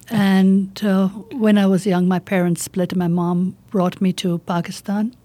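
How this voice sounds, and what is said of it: Slight Indian accent. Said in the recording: “I was born in India. I still have a bit of the accent. ... a little bit.”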